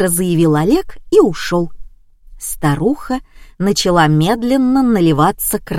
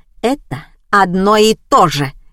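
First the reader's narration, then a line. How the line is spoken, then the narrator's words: Barking. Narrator (Russian): рявкнула мать Вована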